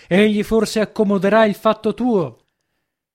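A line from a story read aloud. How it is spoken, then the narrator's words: Distant shout. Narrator (Italian): gli gridò dal pianerottolo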